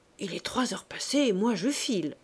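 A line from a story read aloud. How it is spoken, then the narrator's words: Murmur. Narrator (French): murmura M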